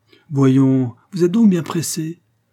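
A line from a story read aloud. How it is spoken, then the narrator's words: Banker's exclamation. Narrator (French): s'écria le banquier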